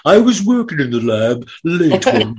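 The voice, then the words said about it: Imitates another person's voice. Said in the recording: “impersonating Boris Karloff ... That's a damn good impression”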